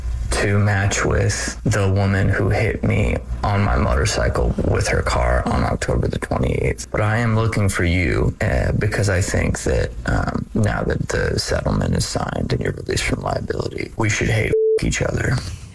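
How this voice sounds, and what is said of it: Creepy voice with a little phlegm. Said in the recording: “That's a creepy voice, right? ... It can get creepier ... He's got a little phlegm in there.”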